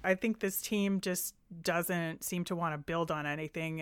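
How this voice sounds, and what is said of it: Frustrated tone. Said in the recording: “I am exceedingly frustrated. I don't know if you can tell by my tone”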